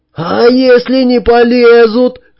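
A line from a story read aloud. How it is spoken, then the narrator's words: Shrill squeal. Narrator (Russian): взвизгнул Олег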